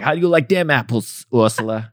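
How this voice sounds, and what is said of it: Matt Damon impression. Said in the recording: “my Matt Damon impression.”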